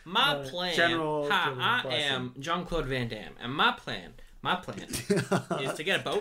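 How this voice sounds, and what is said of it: Imitates another person's voice, accent. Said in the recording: “That's his accent.”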